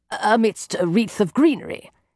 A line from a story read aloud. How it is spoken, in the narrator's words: interjects Sherlock rather harshly